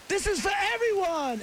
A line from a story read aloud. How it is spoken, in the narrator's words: yells